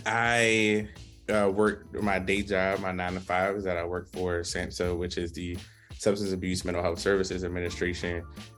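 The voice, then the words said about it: Baltimore accent. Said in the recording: “born and raised Baltimore City boy, I say it everywhere, if you can't tell by the accent.”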